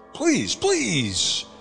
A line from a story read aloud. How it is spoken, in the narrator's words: I shouted at her harshly